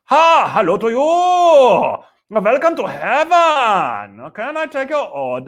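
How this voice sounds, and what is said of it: Put-on comic accent. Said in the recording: “I don't know why God has that accent. Anyway, so he has all accents. ... I love to do accents, man.”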